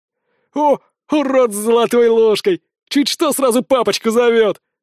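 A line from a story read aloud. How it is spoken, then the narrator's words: Mocking guffaw. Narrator (Russian): расхохотался Петров и следом остальные второкурсники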